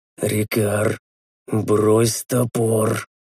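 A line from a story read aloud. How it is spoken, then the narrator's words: Mumbled, lips barely moving. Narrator (Russian): пробормотал я, едва шевеля губами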